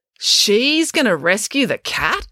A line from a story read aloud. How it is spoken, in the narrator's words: exclaimed April